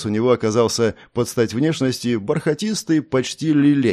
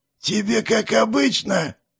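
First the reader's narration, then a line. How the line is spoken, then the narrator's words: Wheezy rasp. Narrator (Russian): просипел Гизмо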